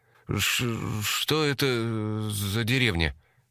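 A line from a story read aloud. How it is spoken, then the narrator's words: Nervous stutter. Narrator (Russian): Семен, как всегда, начал заикаться от волнения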